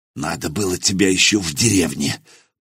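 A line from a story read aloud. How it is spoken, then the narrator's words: Whispered in foreign tongue. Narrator (Russian): прошептал Хузарин по-рамейски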